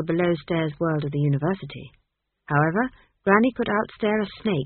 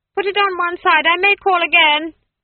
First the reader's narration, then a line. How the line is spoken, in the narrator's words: she shouted